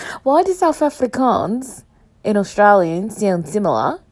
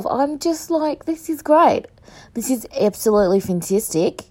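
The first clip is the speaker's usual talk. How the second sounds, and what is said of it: Put-on Australian accent drifting South African. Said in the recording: “It was supposed to be Australian and then it went into like South African. No, South African.”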